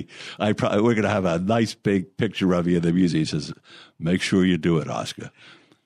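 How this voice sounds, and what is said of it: Pretty good Boston accent imitation. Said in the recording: “That's a pretty good Boston accent.”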